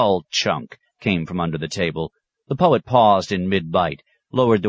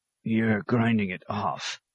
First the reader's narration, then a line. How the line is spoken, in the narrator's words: muttered out of the side of his mouth